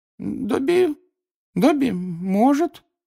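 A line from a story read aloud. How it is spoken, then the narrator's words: Uncertain drawl. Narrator (Russian): неуверенно протянул он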